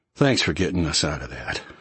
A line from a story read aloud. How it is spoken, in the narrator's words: murmured